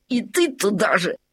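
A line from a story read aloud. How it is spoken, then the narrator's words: Snapping retort. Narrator (Russian): огрызнулся Лабан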